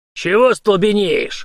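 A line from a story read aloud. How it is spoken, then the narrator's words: Growled, old soldier. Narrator (Russian): рыкнул на него старый служака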